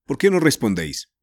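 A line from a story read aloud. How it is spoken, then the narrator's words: Plain. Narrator (Spanish): preguntó el tío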